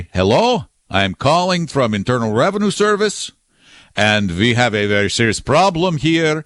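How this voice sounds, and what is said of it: Put-on thick foreign accent. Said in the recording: “they're going to have a thick foreign accent”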